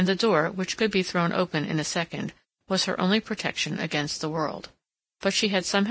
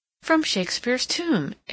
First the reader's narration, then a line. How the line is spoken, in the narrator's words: exclaimed Mrs